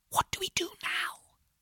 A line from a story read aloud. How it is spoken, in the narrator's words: I whispered to Jake